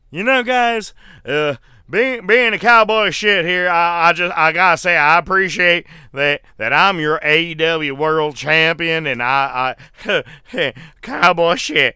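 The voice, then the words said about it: Imitates another person's voice. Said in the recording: “my impression of Hangman Page”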